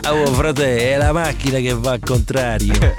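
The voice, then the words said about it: Put-on Roman Italian accent. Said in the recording (Italian): “Però lo dice con l'accento romano.”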